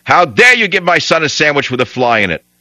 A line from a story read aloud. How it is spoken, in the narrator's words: My father unloaded with both barrels, yelling